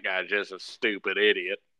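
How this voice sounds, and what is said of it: Put-on southern accent. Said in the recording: “He had a southern accent.”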